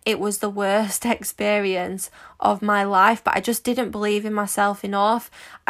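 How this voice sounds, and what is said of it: Manchester English accent. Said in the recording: “you might be able to tell from my accent, but I'm quite common. I'm from Manchester.”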